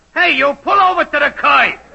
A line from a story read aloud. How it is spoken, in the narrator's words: I hear a voice yell